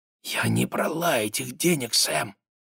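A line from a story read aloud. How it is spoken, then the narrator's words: Close intimate whisper. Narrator (Russian): приблизив лицо, зашептала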